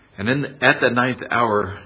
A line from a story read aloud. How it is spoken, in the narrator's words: Jesus cried with a loud voice